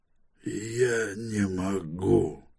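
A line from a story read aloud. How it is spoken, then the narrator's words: Barely audible reply. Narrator (Russian): еле слышно отозвался мисс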